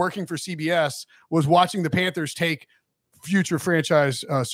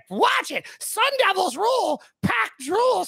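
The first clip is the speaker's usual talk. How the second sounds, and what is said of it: Imitates another person's voice. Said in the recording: “That impression. The laugh. ... That was a really good impression.”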